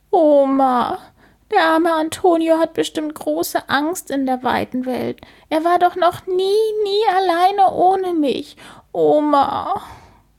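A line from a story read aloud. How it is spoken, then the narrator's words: Sobbing. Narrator (German): schluchzt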